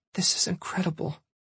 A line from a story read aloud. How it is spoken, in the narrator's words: whispered